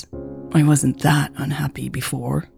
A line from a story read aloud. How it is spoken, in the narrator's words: she mumbled